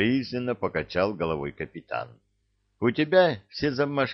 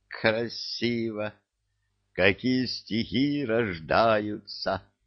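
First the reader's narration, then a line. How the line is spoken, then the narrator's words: Dreamy drawl. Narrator (Russian): вдруг мечтательно протянула центральная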